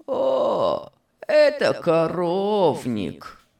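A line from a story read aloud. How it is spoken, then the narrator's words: Hoarse rasp. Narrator (Russian): прохрипел маклер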